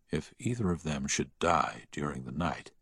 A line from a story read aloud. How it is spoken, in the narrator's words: he heard the doctor whisper to the nurse